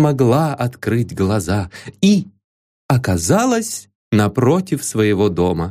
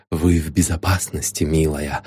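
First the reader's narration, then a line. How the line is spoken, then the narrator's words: Whisper. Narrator (Russian): шепнул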